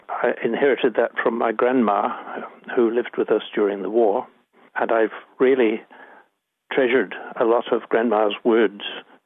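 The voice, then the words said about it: Scottish accent. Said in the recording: “I've got a non-New Zealand accent. I've got a Scottish accent when I'm talking.”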